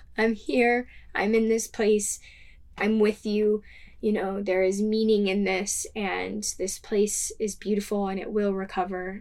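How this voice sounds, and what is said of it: Emotional, moved speaking voice. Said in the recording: “I'm getting emotional.”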